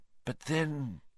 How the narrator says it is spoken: muttered

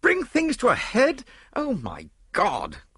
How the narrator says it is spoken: cried Lord Yardley

